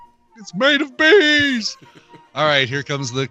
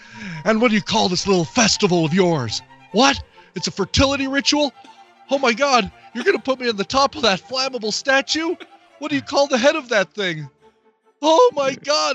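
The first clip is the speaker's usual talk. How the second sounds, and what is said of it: Crappy Nicolas Cage impression. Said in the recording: “the crappy Nicolas Cage impersonation”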